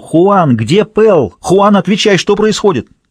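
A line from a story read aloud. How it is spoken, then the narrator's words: Shouted into radio. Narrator (Russian): Кэтрин Дэнс кричала в свою мотороллу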